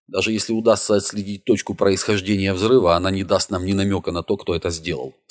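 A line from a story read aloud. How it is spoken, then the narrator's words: Plain. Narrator (Russian): сказала Дэвинпорт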